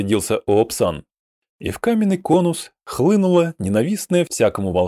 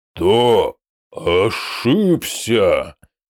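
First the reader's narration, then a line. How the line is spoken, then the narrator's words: Hoarse croak. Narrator (Russian): прохрипел Доскамедаль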